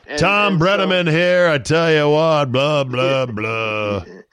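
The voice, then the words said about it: Forced sportscaster announcer voice. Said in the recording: “He always seemed to be forcing it... A little bit of a puke voice, that announcer voice.”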